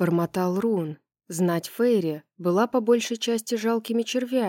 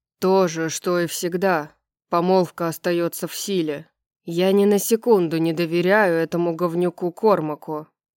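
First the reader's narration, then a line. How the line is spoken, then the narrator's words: Grumbled. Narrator (Russian): проворчал Флинн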